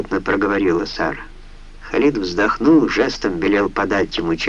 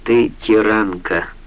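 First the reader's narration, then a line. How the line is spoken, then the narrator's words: Tired murmur. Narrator (Russian): устало вымолвил он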